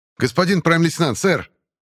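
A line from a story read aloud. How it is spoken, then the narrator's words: Shout. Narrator (Russian): крикнул Дагору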